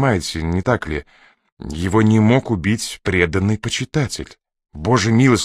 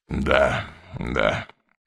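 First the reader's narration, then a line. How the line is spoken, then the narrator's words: Tired sigh. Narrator (Russian): устало вздохнул Мастерс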